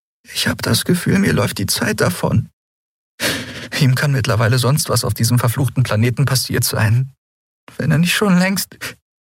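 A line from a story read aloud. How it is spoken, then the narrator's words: Choked voice. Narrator (German): sagte sie mit erstickter Stimme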